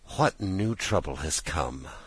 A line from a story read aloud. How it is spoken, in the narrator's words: murmured Mrs